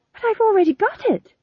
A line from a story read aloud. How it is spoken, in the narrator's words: said Tom John desperately